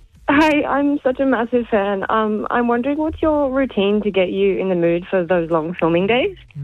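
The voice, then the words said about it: Shaky, nervous voice. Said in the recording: “sorry if my voice sounds so shaky. I'm really nervous.”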